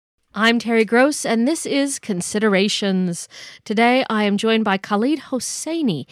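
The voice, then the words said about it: Imitates a radio host's voice. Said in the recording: “doing the voice of Terry Gross, the NPR legend who hosts Fresh Air”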